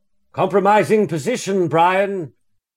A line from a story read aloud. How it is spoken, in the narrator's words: called out